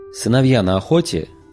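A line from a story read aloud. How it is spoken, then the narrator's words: Blurted rudely. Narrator (Russian): брякнул Барамир, грубо вторгаясь в думы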